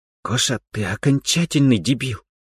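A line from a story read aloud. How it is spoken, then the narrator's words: Through gritted teeth. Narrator (Russian): процедила вторая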